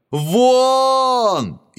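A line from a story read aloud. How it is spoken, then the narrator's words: Frantic screaming. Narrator (Russian): истошно вопил король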